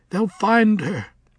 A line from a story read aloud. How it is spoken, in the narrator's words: he croaked